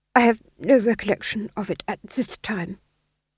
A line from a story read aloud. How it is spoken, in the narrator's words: he murmured